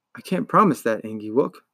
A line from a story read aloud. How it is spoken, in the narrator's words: he said softly